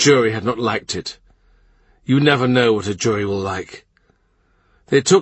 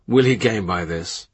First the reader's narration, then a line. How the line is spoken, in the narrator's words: Under his breath Cromwell says